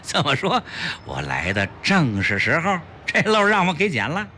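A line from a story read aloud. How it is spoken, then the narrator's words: Happy laughter. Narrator (Chinese): 齐长鹏高兴地笑道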